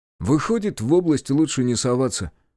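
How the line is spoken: Muttering. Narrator (Russian): буркнул он

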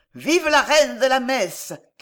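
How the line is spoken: Shouted. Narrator (French): cria quelqu'un

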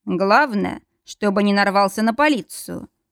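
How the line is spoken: Gloomy remark. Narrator (Russian): мрачно заметил Мортон

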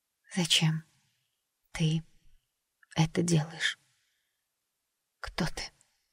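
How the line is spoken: Barely audible question. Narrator (Russian): спросила Джесс едва слышно

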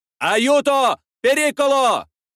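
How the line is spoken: Three warriors shouting. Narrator (Russian): закричали трое воинов

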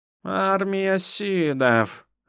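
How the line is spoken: Doomed exhale. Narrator (Russian): обреченно выдохнула Лидвера

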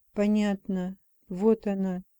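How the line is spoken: Whisper. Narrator (Russian): прошептала

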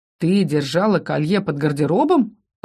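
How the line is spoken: Scoffing snort. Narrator (Russian): Ас хмыкнул

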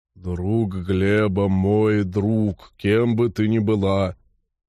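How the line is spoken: Deep bass voice. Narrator (Russian): Норл пробасил

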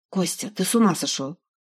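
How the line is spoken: Quiet. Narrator (Russian): проговорила она тихо

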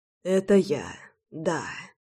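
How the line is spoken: Breathless exhale. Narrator (Russian): выдохнул он

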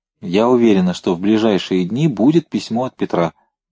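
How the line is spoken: Plain. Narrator (Russian): сказала Инна Васильевна

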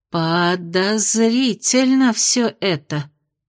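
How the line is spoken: Drawling. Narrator (Russian): протянула Аделин

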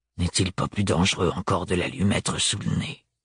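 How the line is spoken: Muttering. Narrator (French): marmonna-t-il

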